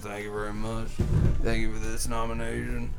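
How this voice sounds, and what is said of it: Bradley Cooper impression. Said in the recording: “is Bradley Cooper, A Star Is Born ... I'm losing the voice a bit ... to do this voice.”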